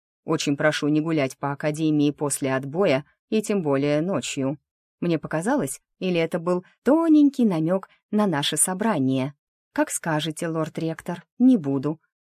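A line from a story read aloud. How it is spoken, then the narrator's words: Calm. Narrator (Russian): отвечаю спокойно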